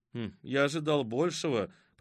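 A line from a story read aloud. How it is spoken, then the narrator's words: Disappointed grumbling. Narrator (Russian): проворчал разочарованный Филипп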